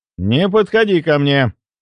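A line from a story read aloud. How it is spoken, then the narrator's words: Loud grumbling. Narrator (Russian): громко пробурчал я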